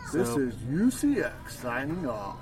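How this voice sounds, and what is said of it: Radio announcer voice. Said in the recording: “My nice little radio voice there.”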